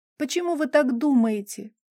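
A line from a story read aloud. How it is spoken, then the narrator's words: Sobbing hard. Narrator (Russian): уже рыдая вовсю уточнила она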